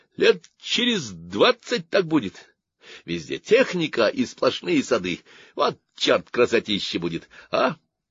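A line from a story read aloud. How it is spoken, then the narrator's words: Laughing. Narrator (Russian): Любка засмеялась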